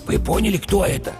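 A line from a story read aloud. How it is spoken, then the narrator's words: Whispered question. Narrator (Russian): шепотом спросил бык-тупогуб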